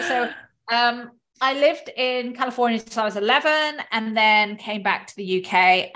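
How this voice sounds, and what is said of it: Strong British accent. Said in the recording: “I've got an incredibly British accent”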